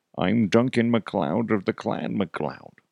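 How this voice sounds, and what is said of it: Imitates a movie character's voice. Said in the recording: “That's not how you do the voice”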